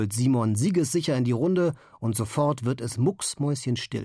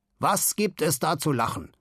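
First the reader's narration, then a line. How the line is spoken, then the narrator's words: Dangerous growl. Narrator (German): knurrt Simon und sein Knurren hört sich gefährlich an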